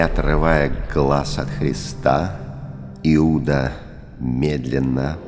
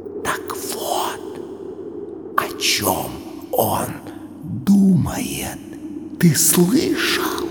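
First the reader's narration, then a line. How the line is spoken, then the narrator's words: Unexpectedly quiet whisper. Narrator (Russian): Петр, вдруг вспомнив что-то, шепнул Фоме неожиданно тихим голосом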